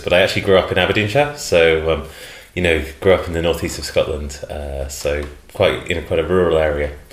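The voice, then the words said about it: English accent from Cambridge. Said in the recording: “my family's from Cambridge originally, hence the accent, which I'm sure will grab all listeners' ears”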